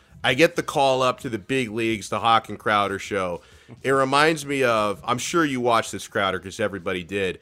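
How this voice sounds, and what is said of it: Slightly hoarse, strained voice. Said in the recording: “I'm losing my voice a little bit, though... I don't have my full voice”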